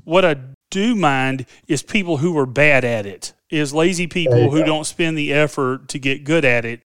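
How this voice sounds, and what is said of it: Southern American accent. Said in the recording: “I got that Southern accent, man.”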